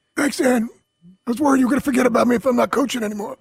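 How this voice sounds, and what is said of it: Impression of Doc Rivers. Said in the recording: “Oh, is that your Doc Rivers? ... your Doc Rivers impersonation”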